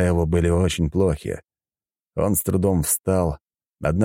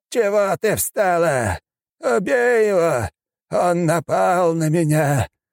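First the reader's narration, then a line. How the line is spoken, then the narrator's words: Old man's hoarse wheeze. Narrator (Russian): прохрипел старик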